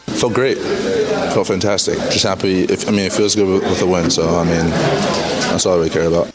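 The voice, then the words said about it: Flat, unbothered New York accent. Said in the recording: “Can't be bothered, New Yorker. ... I really don't want to speak, but I have to, so I'm going to sound like that.”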